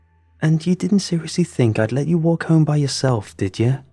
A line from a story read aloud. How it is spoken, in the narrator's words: giggled